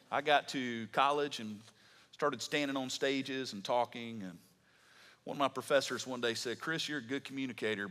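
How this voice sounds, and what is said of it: Southern American accent. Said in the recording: “I had a southern accent. Still do, but hopefully it is a bit more polished than it was then.”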